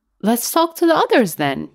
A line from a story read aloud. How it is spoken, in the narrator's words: said eagerly, as if to a child